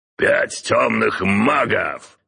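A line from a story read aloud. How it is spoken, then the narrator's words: Bark. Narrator (Russian): рявкнул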